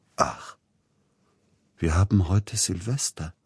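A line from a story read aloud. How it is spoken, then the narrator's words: Sudden very quiet voice. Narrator (German): sagte plötzlich ganz leise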